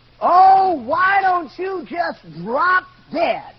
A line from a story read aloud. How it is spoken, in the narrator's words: screamed at the top of her lungs and said